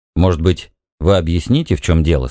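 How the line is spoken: Plain. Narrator (Russian): сказал он

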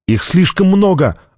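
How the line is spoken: Exclaiming. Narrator (Russian): воскликнула Соши

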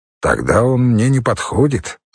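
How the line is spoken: Calm. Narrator (Russian): спокойно сказал Леший

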